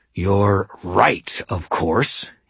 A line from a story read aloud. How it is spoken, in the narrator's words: he snarled